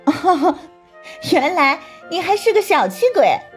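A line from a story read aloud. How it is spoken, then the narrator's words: Laughing out loud. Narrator (Chinese): 祝海棠笑出声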